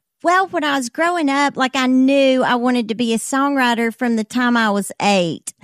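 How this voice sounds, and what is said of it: Alabama accent. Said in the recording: “Gadsden, Alabama is where you're from, if people can't recognize the accent.”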